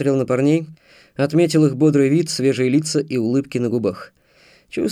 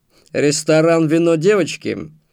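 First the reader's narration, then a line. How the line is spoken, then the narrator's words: Snorting. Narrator (Russian): хмыкнул Антон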